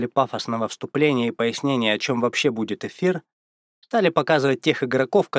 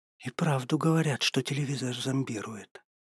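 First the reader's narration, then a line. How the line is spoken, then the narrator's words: Whisper. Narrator (Russian): прошептала та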